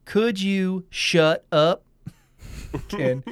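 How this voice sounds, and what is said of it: Imitates another person's voice, poorly. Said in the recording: “that's my impression of Kevin Bacon. Not great.”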